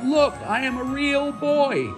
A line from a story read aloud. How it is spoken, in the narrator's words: he cried out